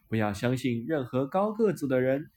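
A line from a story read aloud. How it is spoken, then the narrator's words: Laughing. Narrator (Chinese): 白雪公主笑着说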